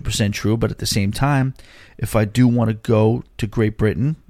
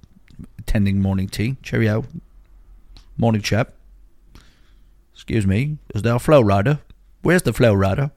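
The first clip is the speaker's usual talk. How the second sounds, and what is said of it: Put-on British accent. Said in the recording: “I might develop a British accent.”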